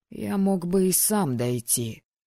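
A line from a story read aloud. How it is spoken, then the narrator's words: Grumble. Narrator (Russian): проворчал я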